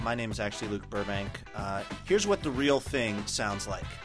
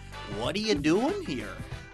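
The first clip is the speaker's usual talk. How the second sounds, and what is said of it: Imitates another person's voice, badly. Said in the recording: “I'm Chris Hansen from Dateline NBC ... that was terrible ... That was a terrible impression.”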